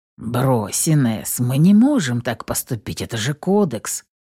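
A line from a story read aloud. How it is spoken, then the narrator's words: Gentle, as to child. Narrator (Russian): Мягко, как ребенку, начал объяснять детектив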